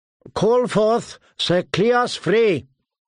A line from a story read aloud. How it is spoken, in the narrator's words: His voice rang off the stone walls and down the length of the hall